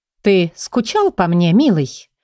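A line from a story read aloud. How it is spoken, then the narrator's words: Sudden languid, sultry. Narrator (Russian): вдруг томно произнесла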